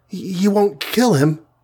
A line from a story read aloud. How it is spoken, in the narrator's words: begged the wasp, with a sob in her voice